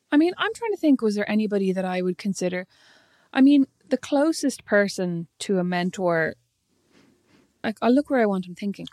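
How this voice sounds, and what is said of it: Presenter-style radio voice. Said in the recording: “Your voice goes, your voice goes ... All presentary when you start ... Looking away. ... that's my professional radio voice.”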